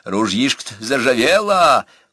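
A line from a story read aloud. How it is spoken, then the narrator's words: Chuckling. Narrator (Russian): он хохотнул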